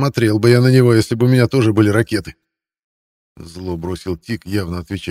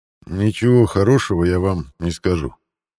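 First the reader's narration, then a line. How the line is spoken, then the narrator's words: Quiet. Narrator (Russian): негромко произнес Лой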